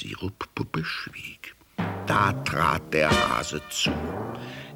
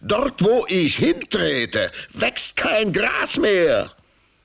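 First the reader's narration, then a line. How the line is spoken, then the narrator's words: Hare shrieking. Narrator (German): kreischte der Hase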